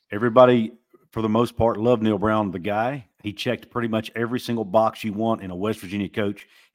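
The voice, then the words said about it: Appalachian accent. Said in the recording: “He's from Kentucky, right down the road in the Appalachian regions. So culturally, it's like, you know, he's got the same similar accent as me.”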